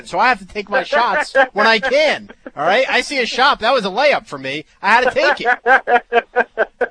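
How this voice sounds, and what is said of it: New Jersey accent. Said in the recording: “I have a Jersey accent ... people knock me all day for my accent”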